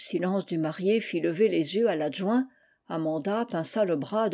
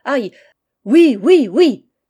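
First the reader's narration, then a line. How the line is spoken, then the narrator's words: Ringing, loud cry. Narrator (French): s'écria-t-il d'une voix éclatante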